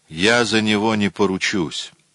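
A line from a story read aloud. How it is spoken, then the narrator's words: Gloomy speech. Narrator (Russian): мрачно произнес Спеннер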